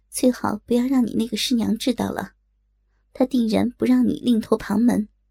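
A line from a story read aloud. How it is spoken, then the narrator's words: Faint smile. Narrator (Chinese): 小龙女淡淡一笑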